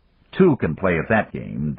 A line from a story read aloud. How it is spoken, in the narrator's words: Dan muttered to himself